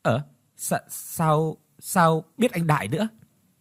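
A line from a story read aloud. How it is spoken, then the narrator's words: Startled stammering. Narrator (Vietnamese): Ngọc nghe nhắc đến Đại thì lắp bắp đáp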